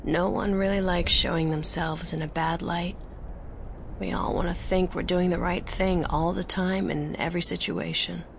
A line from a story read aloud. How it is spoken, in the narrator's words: the mentor, Lux, said, as calmly as if she weren't standing a few meters away with a blaster aimed at him